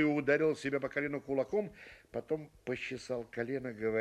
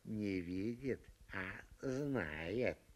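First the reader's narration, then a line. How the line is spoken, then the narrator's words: Barman speaking quietly. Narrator (Russian): Буфетчик тихонько сказал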